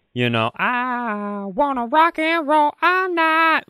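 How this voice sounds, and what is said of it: Silly squawky rock singing voice. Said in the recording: “What was that voice? ... sounded like if the Flintstone Birds started a Kid Rock cover band.”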